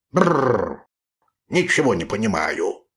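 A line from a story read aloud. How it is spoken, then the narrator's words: Muttered. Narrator (Russian): бормотал рыжий пес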